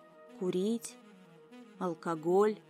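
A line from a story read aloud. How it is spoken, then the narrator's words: Dull, confused man's echo. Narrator (Russian): глухо вторил мужчина явно не понимая о чем речь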